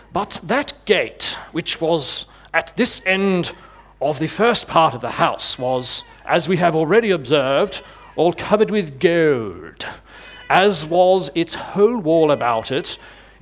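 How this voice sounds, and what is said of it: Olde English accent, David Attenborough style. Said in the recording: “accents to choose from. I went with the ye olde English accent, David Attenborough style.”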